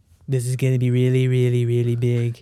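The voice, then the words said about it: Donald Trump impression. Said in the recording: “someone doing their, like, best Trump impression”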